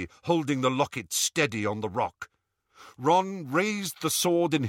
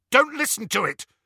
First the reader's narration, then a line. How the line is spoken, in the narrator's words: Harry said harshly